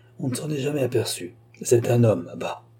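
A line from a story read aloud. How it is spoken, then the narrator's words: Whispered in ear. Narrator (French): lui souffla Collard à l'oreille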